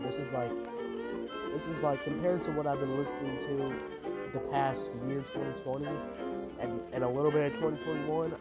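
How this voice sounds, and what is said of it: Flat, deeper, congested voice. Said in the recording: “my voice sounds a little dead, maybe a little unemotional, maybe a little deeper than usual. It's because my allergies are, like, killing my soul right now ... If I sound weird or start doing sniffling or whatever, I have bad allergies.”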